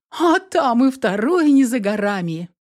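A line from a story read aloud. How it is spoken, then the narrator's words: Laughing. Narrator (Russian): смеясь, ответила Инесс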